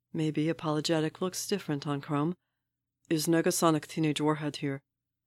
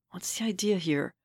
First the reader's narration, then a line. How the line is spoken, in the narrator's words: She hisses under her breath